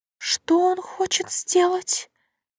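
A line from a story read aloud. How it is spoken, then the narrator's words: Weak, half-conscious question. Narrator (Russian): слабым голосом переспросила ненадолго очнувшаяся королева Алисия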